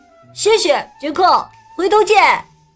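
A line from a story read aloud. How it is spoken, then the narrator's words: Loud. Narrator (Chinese): 富兰克林大声说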